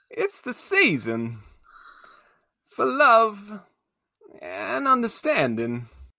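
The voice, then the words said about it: Poor Christopher Walken impression. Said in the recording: “bad impression. It's Christopher Walken ... It wasn't good enough.”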